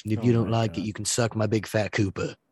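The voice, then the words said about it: Bad put-on English accent. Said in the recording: “that was a bad English impression... my voices of that bad English accent”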